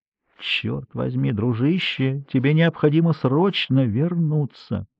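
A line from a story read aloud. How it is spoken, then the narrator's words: Very quiet, barely audible. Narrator (Russian): Эдгар говорил очень тихо, и Гарри с трудом слышал его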